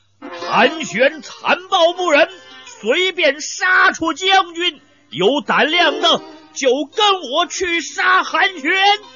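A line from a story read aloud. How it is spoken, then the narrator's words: Loud shout. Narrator (Chinese): 一个人大声叫道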